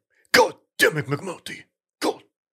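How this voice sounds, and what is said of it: Angry, exasperated shouting character voice. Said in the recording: “my impression of the police chief in The Wire chastising McNulty ... him just getting pissed at McNulty”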